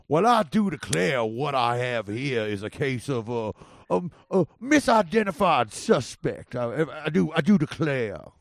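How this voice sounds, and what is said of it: Put-on Southern redneck lawyer accent. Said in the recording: “I only do like one accent. I only do like a, you know, like a redneck like a trial lawyer in the South”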